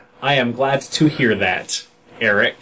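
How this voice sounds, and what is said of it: Flat robotic voice. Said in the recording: “talking like a robot”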